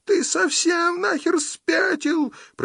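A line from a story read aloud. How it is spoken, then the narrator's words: Muffled shriek through hands. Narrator (Russian): провизжала дура сквозь упавшие на лицо волосы и пальцы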